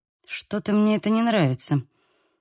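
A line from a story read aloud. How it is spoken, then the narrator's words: Muttering. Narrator (Russian): пробормотала я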